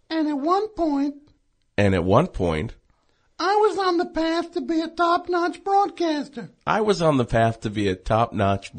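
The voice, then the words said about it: Phony put-on broadcaster voice. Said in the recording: “I'm doing a phony baloney voice.”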